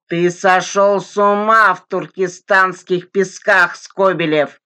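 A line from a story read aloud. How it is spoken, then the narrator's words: Barked shout. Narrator (Russian): рявкнул Николай Николаевич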